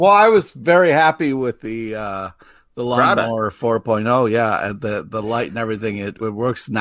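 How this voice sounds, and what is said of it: Usual voice. Nothing is said of it.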